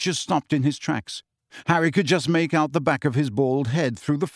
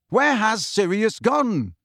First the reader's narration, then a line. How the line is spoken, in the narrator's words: Harry yelled after the elf